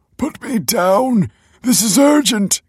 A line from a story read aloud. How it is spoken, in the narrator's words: cried Michael